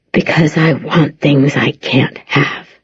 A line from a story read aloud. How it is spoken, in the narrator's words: he whispers